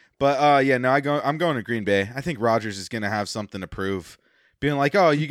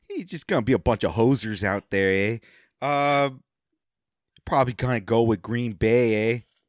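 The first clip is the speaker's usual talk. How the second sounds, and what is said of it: Mock Minnesotan Canadian-style accent. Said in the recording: “we don't sound like we're Canadian at all, don't you know? ... we totally have a different accent, you hoser”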